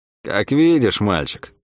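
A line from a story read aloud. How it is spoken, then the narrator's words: Dry, curt. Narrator (Russian): сухо сказала та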